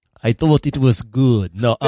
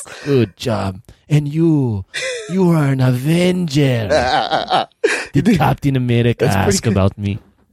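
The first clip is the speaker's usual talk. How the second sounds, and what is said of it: David Harbour doing Russian accent. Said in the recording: “You do good David Harbour doing a Russian accent. ... But he does a great David Harbour doing an accent.”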